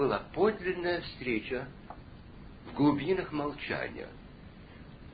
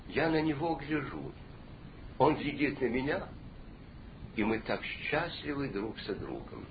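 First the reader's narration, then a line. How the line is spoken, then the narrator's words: Quiet old man. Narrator (Russian): старик тихо ему ответил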